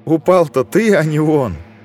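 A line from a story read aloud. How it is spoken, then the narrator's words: Girl's giggle. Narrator (Russian): Хихикнула девчонка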